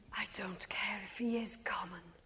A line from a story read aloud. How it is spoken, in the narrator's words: she whispers to her salad day deep self